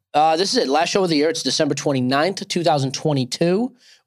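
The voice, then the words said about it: Hoarse, nearly lost voice. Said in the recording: “My voice is almost gone ... I did not know it was this bad ... what the heck's up with your voice? You sound like death”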